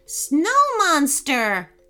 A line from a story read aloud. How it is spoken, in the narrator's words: shouted Ronan